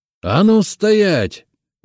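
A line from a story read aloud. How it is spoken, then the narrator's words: Shouted command. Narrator (Russian): выкрикнул я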